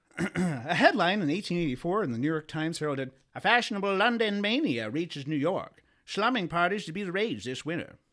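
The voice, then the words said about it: Put-on old-time radio accent. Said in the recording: “This is the last accent. ... I could hear some fucking Jack Heel saying that on the radio.”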